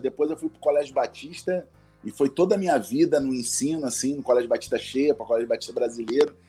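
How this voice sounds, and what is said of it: Strong Rio de Janeiro accent. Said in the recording (Portuguese): “quando tu fala, a gente já sabe que tá falando com um cariocão ... sotaque. o sotaque é muito forte ... O sotaque te entrega”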